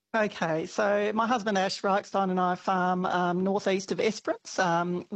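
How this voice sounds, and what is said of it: Slightly croaky voice. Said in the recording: “My voice is a bit croaky too... Both yelling”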